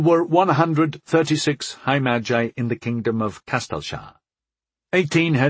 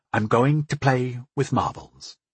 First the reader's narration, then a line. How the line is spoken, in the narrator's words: I whispered back